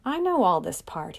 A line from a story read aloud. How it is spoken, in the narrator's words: he said impatiently